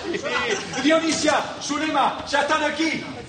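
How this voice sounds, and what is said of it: Shouting loudly. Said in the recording (Spanish): “¡No grites! ¡No grites,”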